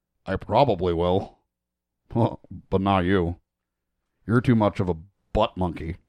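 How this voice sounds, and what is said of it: Poor Butthead impression. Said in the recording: “Your horrible fucking butthead impression”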